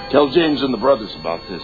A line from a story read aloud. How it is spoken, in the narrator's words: said